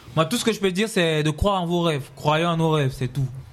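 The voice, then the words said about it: Cameroonian-accented French. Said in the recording (French): “Toi, tu ressembles à un Congolais. Mais avec l'accent camerounais.”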